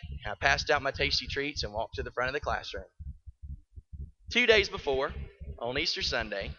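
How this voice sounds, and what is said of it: Usual voice. Nothing is said of it.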